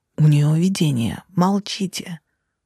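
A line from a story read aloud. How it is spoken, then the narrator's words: Hiss. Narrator (Russian): прошипел Хам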